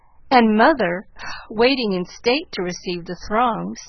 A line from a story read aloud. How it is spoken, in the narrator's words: sighed Joe, quite spent with laughter